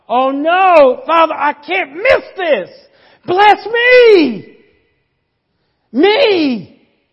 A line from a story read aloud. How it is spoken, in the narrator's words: He cried with an exceedingly great and bitter cry